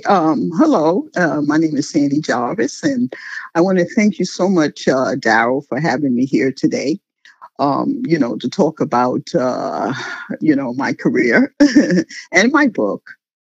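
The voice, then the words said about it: New York accent. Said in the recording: “As you can hear, she has that wonderful New York accent. Like, it's very distinguishable.”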